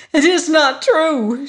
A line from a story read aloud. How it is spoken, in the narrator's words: she cried